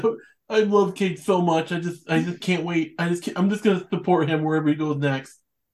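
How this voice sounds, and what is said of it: Imitates another person's voice, cartoonish. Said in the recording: “your Tony Dombrowski impression just Scott Malkinson”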